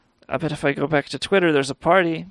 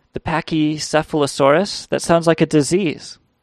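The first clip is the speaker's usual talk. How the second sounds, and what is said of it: Salad Fingers cartoon character voice. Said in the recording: “I was doing the salad fingers voice... I didn't even realize it.”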